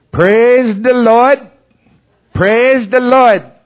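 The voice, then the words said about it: Strong Maine accent. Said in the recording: “a real strong... You ever been around people with a real strong Maine accent?”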